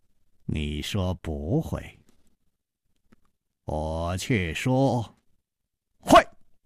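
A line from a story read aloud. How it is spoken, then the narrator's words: Slow smiling. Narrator (Chinese): 楚留香缓缓地笑了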